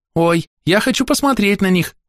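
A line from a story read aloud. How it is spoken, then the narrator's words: Exclaimed. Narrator (Russian): воскликнул Джек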